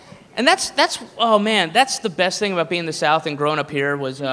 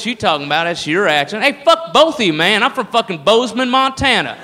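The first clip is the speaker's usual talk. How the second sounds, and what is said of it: Put-on redneck drawl. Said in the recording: “the redneck voice is all over the place”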